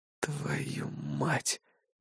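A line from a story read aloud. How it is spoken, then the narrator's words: Breathed out. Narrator (Russian): выдохнул я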